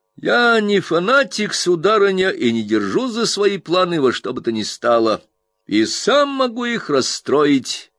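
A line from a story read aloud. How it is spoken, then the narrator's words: Cheerful. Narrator (Russian): весело сказал доктор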